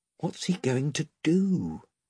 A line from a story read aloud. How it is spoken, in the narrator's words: whispered Eustace to Edmund